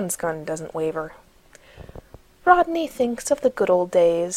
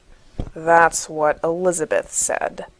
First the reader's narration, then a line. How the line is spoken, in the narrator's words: John answers darkly